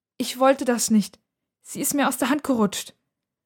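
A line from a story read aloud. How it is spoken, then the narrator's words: Trembling voice. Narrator (German): sagt mit zittriger Stimme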